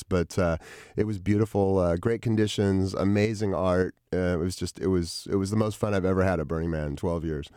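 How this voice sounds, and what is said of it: Slightly hoarse voice. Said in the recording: “I'm a little hoarse now from having breathed dust and smoke for a few days”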